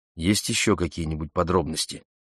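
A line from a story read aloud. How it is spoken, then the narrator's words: Plain. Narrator (Russian): спросил я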